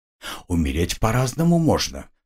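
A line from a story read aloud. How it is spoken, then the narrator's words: Insinuating whisper. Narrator (Russian): вкрадчиво шепнула Виталия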